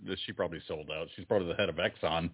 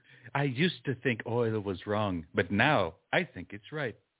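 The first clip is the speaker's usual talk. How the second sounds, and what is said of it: Imitates another person's voice. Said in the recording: “my Greta Thunberg impression as the spokesperson for Exxon... It was a very good one”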